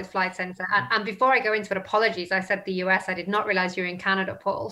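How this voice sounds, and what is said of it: British accent. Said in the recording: “You have the British accent.”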